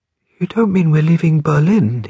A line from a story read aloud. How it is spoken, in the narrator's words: he asked, gasping for air as he got the words out